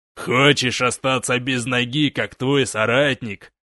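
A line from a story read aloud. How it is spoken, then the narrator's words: Growling threat. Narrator (Russian): прорычал гнарк твердая рука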